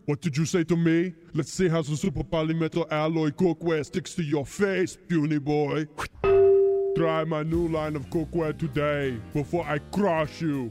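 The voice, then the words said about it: Poor Arnold impression. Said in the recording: “Okay, Arnold ... All celebrity voices are poorly impersonated.”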